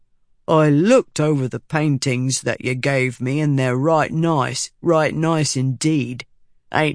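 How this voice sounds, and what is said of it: Slow, overemphasized Bav accent. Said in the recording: “Bav accent ... it's more like they have pebbles in their mouths. But they talk really slow with overemphasized sounds.”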